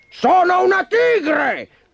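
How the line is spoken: Angry shriek. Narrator (Italian): strillò alterandosi

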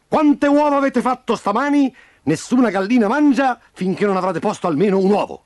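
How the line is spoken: Booming rooster crow, nonstop shouting. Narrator (Italian): tonante chicchirichì di Von Crest, che gridava tutto spiano

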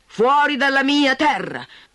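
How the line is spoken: Shouting. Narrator (Italian): gridò

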